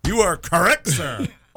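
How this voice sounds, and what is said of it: Imitates another person's voice. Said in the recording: “do the Ed McMahon voice ... I'm doing Phil Hartman on Saturday Night Live doing Ed McMahon”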